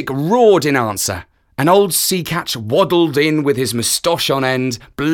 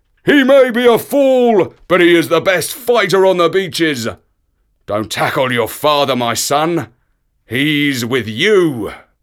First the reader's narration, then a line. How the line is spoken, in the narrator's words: And Sea Catch gave a roar and shouted